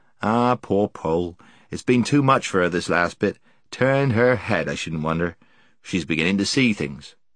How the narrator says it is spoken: she heard Puddleglum mutter

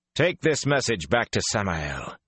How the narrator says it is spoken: he said coldly

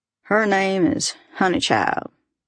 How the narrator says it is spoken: he drawled

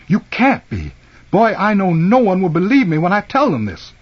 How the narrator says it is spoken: He exclaimed

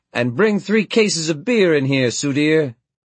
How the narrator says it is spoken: Bailey shouted at me

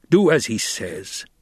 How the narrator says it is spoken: Stilgar growled

